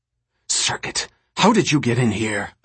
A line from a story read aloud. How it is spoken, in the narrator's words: Alicia hissed